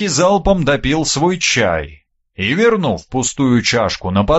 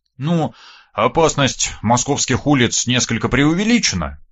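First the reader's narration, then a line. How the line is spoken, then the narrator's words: Wry grunt. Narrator (Russian): я хмыкнул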